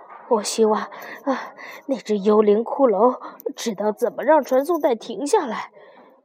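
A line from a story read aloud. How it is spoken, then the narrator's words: Breathless, panting. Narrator (Chinese): 拉尔夫喘着气说道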